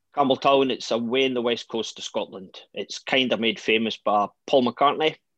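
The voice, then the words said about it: Strong West Coast Scottish accent. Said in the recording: “The West Coast's a rather strong accent as well... I'm trying to tone myself down and go slowly”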